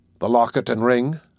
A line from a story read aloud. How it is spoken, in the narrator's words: said Mr